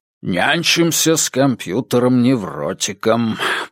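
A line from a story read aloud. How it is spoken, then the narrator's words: Muttering. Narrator (Russian): пробормотал Керну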